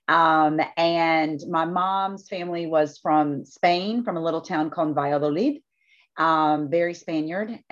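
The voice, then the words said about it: South Carolina Southern US accent. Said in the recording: “I grew up in South Carolina, as we all know, because you can't hide this accent very easily.”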